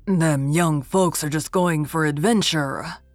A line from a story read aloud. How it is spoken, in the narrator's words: growled Nathan Crawford